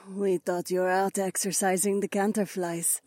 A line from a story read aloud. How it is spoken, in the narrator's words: Zoe murmured